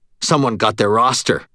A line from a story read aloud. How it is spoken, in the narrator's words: Daniel said, his voice harsh